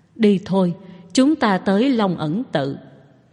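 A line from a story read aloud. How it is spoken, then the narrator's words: Sighing, resigned. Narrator (Vietnamese): Cậu thở dài một tiếng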